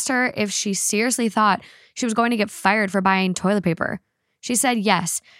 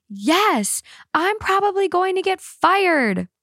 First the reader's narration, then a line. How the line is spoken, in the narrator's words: screamed